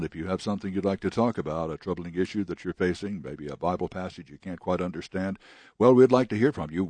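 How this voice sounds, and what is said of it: Rich, pleasant radio announcer voice. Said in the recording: “Bob Davis has such a wonderful radio voice ... It's like listening to a wonderful singer ... We all wish we had voices like he does”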